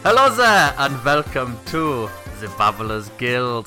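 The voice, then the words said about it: Put-on unidentified accent. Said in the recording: “don't know what that accent was ... That was incredible ... It was an incredible accent.”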